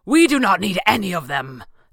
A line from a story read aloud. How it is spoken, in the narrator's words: Thatcher roared